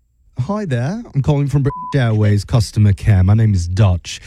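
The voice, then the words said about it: Bad put-on British accent. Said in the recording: “my absolute worst British accent”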